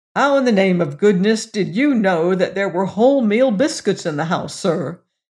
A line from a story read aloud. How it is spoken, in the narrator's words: exclaimed the station master